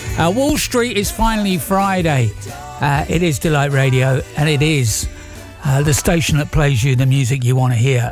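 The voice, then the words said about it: Strained, failing voice. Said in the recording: “I'm losing my voice again. Don't know what's going on with my voice this week.”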